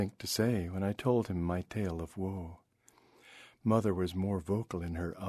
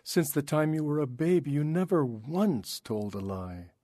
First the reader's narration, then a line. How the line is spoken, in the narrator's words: cried